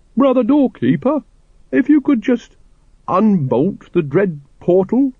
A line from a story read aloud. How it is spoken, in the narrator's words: he quavered